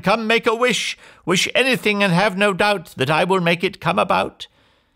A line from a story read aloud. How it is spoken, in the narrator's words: she cried